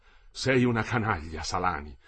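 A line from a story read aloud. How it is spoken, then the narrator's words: Exclaimed. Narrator (Italian): esclamò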